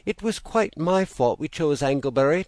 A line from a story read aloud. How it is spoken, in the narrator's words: Thomason pleaded